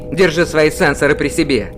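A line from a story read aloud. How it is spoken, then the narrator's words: Angry snap. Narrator (Russian): Злобно огрызнулся космодесантник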